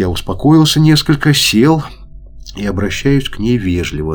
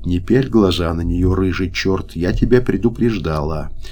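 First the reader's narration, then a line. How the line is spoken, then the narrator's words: Calm voice. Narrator (Russian): спокойным голосом отвечает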